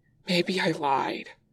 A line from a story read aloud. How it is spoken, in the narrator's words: Wei Ying pants